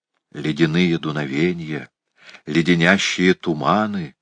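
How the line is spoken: Whispered. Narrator (Russian): шепнул Том

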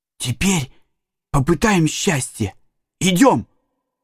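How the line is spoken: Whisper. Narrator (Russian): Том шепнул

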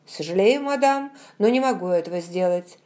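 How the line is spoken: Dry, curt servant. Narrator (Russian): сухо произнес лакей

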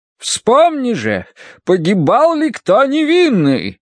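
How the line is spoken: Booming voice. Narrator (Russian): прогремела она

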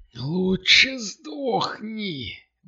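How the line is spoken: Howled reply. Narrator (Russian): Взвыл в ответ тот

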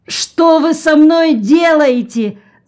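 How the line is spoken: Scream. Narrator (Russian): закричал Джон

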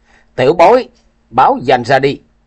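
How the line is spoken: Shouted. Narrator (Vietnamese): quát

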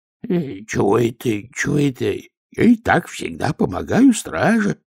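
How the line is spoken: Mumbling. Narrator (Russian): забормотал он

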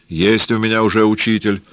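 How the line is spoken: Grumbling, no longer afraid. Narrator (Russian): проворчал Скорик, перестав бояться, что станут до смерти убивать

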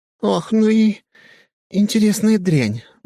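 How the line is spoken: Breathy exhale. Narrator (Russian): выдохнула она

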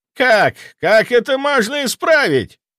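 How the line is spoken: Near shriek. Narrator (Russian): Граф практически визжал

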